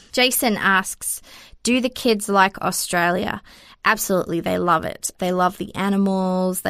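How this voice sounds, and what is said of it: Australian accent, occasional New Zealand tinge. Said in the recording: “my accent is Australian, even though some people say they can hear the Kiwi coming out every now and then”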